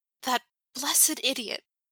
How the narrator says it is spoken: he hisses

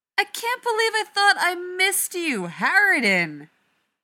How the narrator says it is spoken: Rodney shouts back

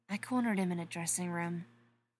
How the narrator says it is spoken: she whispered

